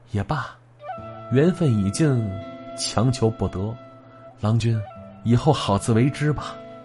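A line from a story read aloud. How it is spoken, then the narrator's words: Soft voice. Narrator (Chinese): 轻声说了一句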